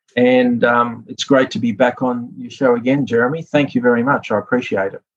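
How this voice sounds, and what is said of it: Australian Sydney accent. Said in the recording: “your Sydney accent”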